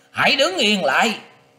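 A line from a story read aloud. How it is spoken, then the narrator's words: Loud shout. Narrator (Vietnamese): tiếng quát to rằng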